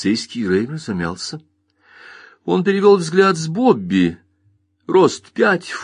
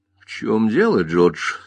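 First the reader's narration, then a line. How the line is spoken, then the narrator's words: Plain. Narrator (Russian): спросила Лиса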